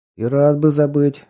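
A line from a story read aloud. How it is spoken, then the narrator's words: Snort. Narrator (Russian): хмыкнул Артем Борисович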